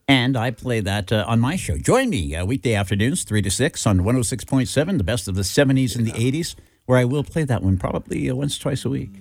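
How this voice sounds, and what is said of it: Professional radio announcer voice. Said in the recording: “That is a radio voice. That's why you're a pro”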